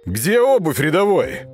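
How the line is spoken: Barked in character. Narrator (Russian): рявкнул вошедший в образ Дошкин

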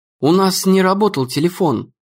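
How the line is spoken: Timid. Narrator (Russian): робко сказала Эмми

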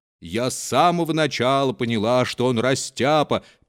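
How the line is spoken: Cook's rich sing-song voice. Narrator (Russian): пела сдобным голосом кухарка

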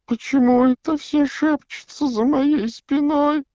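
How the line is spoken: Whiny whimpering. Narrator (Russian): захныкала Миртл

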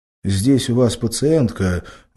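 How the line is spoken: Agitated. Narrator (Russian): взволнованно говорил он

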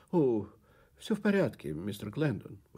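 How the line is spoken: Exclamation. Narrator (Russian): воскликнула она

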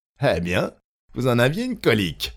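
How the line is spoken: Sneering laugh. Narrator (French): ricana Michel

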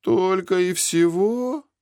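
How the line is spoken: Disappointed drawl. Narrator (Russian): разочарованно протянул Зик

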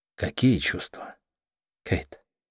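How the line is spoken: Insistent, calm, hopeful. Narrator (Russian): Я продолжал настойчиво, спокойно и с надеждой

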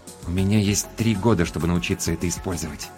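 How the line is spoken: Quiet. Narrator (Russian): тихо сказал Максим

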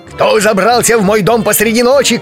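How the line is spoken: Shouted. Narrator (Russian): крикнул он

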